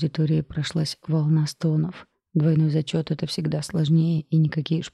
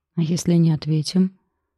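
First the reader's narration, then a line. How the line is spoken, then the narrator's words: Glum question. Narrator (Russian): уныло поинтересовался кто-то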